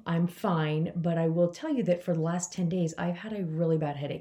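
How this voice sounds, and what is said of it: Voice sounds unwell. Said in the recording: “I don't know if you can hear it in my voice, but I really do not feel well.”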